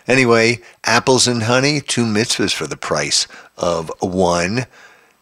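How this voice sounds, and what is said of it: Stuffy, congested voice. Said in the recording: “my stuffy nose. ... I have a little bit of a cold.”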